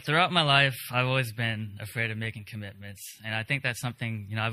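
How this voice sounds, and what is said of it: Shaky, nervous voice. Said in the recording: “my voice is a little bit shaky. I'm a little nervous”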